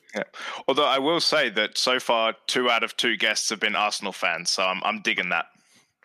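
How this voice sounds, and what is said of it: English accent. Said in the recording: “your credentials are pretty much just your accent ... being born in England ... instant credibility with the accent”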